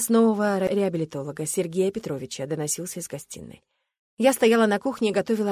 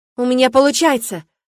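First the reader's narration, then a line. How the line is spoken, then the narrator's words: Sudden joyful shout. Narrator (Russian): крикнул он вдруг, и в его голосе была такая радость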